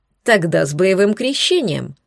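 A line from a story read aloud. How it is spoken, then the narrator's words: Wry grunt. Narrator (Russian): хмыкнул Соловей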